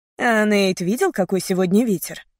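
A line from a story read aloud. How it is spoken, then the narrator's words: Plain. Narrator (Russian): спросил Томми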